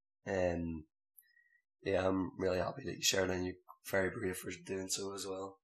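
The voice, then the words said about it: Rough, damaged-sounding voice. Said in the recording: “Sorry about my voice. It's a bit fucked up at the moment.”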